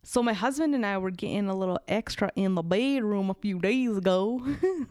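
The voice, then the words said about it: Reads in a weird put-on accent. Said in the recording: “put on a weird accent when I'm reading these uncomfortable like submissions... without putting on a weird accent”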